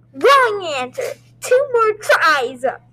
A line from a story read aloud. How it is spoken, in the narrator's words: Bob screamed